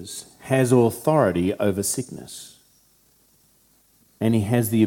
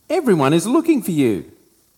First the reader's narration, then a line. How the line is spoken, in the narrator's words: when they found him, they exclaimed